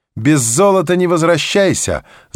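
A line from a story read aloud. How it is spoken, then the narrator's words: Playful shout, youthful mother. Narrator (Russian): задорно крикнула вечно юная маменька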